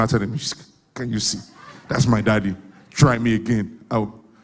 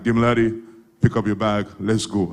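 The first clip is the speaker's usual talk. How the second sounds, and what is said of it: Deep voice, American accent. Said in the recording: “my dad has a deep voice with an American accent.”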